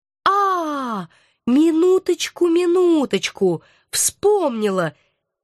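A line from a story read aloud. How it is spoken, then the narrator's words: Forced jubilant exclamation. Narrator (Russian): Изо всех сил, пытаясь изобразить ликование, воскликнула я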